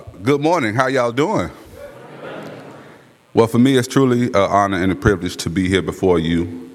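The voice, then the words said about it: Deep, radio-style voice. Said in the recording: “I have a deep voice, but it's much more tailored for the radio”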